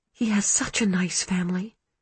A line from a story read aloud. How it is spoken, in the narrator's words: she said wistfully